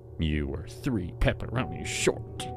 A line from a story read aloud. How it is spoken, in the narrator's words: she muttered